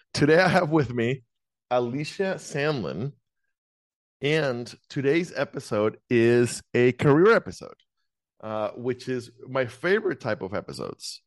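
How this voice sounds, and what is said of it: Polished radio announcer voice. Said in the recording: “switching into my radio voice.”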